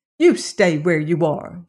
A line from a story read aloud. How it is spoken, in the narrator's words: she snapped